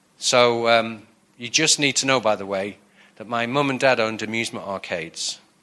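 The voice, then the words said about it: Northern English accent. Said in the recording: “my northern accent coming from Blackpool”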